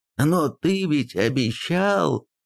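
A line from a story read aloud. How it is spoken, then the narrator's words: Hurt exclamation. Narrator (Russian): с обидой воскликнул Хумул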